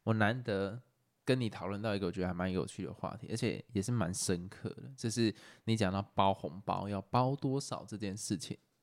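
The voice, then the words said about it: Suddenly speaking very quietly. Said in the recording (Chinese): “你有什么声音突然变得很小声？”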